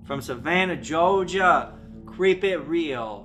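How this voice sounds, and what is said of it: Bad put-on Southern US accent. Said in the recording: “That's the worst Southern accent I've heard in my entire life.”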